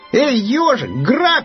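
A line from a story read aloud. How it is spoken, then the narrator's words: Shouted, hare. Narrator (Russian): крикнул заяц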